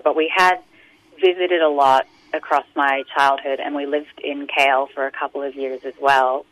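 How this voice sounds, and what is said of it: American accent. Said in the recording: “you acquired this American accent ... in Australia it's a curse to have an American accent”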